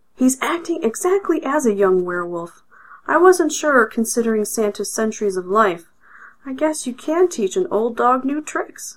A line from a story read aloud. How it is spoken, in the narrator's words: Gregg cheerfully remarked